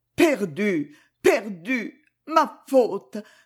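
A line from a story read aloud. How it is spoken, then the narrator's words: Frantic spasmodic stammering. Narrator (French): bégayait éperdument la pauvre bouche spasmodique, toute tirée d'un côté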